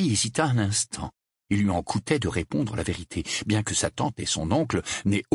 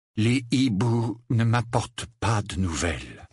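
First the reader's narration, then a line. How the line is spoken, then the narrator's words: Flat toneless voice. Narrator (French): affirma-t-il d'une voix sans timbre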